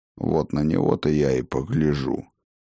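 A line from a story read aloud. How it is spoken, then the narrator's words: Grumbling. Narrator (Russian): проворчал отец дружин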